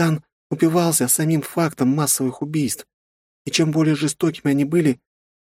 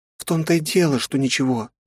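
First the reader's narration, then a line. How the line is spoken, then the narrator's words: Sighed. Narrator (Russian): вздохнула Тора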